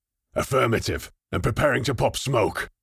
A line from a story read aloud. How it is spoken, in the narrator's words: Kronig growled